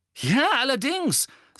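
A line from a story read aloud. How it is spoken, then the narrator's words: Angry. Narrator (German): sagte Ron zornig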